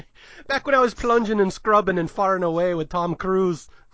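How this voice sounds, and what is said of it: Put-on Irish accent. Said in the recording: “I really hope that Irish accent was passable. That's the best I can do.”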